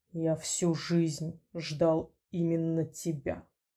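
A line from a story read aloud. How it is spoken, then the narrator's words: Soft growl. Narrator (Russian): мягко прорычал он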